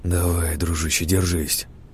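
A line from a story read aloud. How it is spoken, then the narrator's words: Whisper. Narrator (Russian): прошептал я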